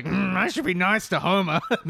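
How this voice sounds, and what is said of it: Imitates Marge Simpson's cartoon voice. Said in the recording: “Good Marge impression. Sweet. That was good.”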